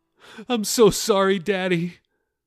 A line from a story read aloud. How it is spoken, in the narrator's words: Talitha said through her sobs